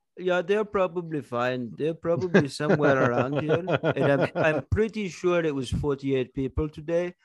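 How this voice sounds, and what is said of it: Put-on Indian-Hawaiian surfer accent. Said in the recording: “I don't know what that accent was. ... it was an Indian man who moved to Hawaii and got a job at a snorkeling company ... now he's getting into marijuana surfing culture”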